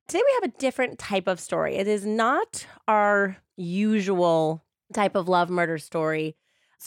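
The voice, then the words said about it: Slightly raspy voice from a cold. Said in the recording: “I'm battling a cold somewhat... if I sound a little different today... There's a little rasp going on today.”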